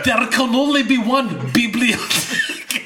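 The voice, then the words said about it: Mixed Spanish and Scottish Highlander accent. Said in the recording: “Now do a Spanish and a Highlander accent together”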